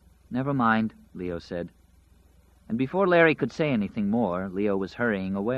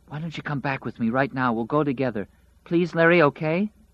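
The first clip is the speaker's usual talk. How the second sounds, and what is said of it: Small hissing whisper. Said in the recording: “blurted in that small, hissing whisper”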